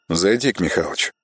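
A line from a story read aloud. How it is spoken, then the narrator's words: Quiet curt remark. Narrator (Russian): негромко бросил он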